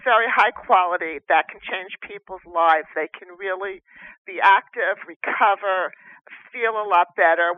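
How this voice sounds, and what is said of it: New Jersey accent. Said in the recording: “your New Jersey accent”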